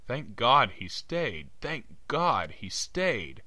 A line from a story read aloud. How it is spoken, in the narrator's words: cried hysterically